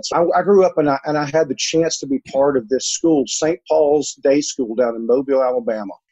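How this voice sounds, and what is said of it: Alabama Southern accent. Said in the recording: “My accent is actually an Alabama accent.”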